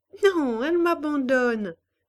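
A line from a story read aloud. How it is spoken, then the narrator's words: Laughing reply. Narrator (French): répondit-elle en riant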